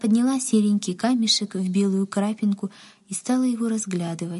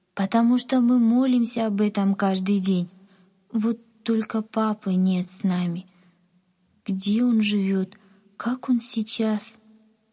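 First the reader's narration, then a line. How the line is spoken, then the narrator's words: Sad. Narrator (Russian): грустно сказала Надя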